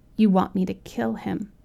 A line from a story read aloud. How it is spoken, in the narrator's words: I said